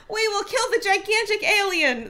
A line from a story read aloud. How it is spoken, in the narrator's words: the first voice shouted